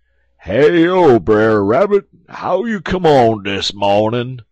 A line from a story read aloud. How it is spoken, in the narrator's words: he holler out